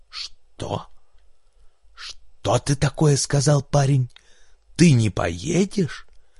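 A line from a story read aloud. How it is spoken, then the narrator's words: Hoarse menacing question. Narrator (Russian): Док хрипло спросил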